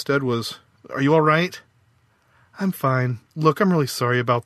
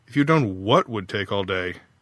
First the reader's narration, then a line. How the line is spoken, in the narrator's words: Faith sighed